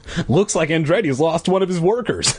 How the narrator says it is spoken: my dad laughed

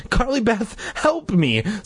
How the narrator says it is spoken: Sabrina pleaded

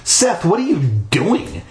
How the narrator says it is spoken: she demanded angrily

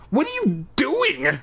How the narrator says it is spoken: I cried

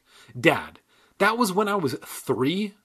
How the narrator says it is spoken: I cried

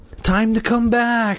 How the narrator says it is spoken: Miss Fairchild whispered

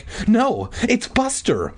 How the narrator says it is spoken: Mindy cried

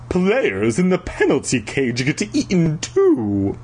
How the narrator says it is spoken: Flag snorted in disgust

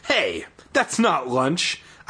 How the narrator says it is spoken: I yelped

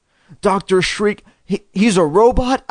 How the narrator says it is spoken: I uttered in a trembling whisper

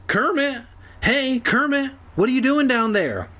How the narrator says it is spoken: Evan called out

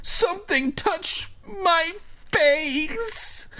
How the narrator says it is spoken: he wailed

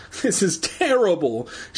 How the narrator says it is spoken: she cried

